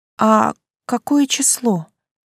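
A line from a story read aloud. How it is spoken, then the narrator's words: Weak-voiced question. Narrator (Russian): слабым голосом поинтересовалась я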